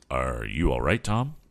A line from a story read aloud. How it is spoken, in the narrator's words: asked